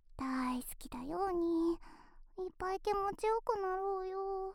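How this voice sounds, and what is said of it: Whispering. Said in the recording (Japanese): “ささやいてあげる”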